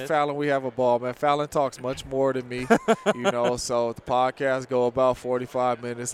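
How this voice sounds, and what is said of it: Deep, lowered podcast voice. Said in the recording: “You got a good podcast voice, though, too. ... do you drop it down an octave for the podcast? ... I try to”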